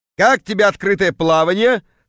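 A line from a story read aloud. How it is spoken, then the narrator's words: Chuckling. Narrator (Russian): хохотнул появившийся Кравчук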